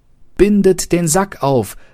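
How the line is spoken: Calling out. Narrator (German): rief ihm die Katze zu

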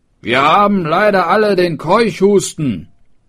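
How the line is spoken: Called out. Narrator (German): rief

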